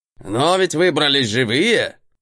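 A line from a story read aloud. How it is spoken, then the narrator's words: Snort, then shout. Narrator (Russian): Хмыкнул тот, видимо, решив перевести тему, крикнул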